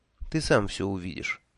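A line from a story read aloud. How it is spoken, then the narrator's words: Soft. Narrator (Russian): мягко сказала Техи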